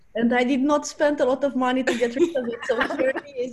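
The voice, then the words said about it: Speaks with a noticeable accent. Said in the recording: “do you have an accent as well? ... You can hear it all the time. ... I like accents very much.”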